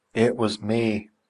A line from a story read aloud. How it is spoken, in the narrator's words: muttered Hareton